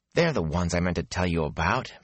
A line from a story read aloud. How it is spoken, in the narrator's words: Matt muttered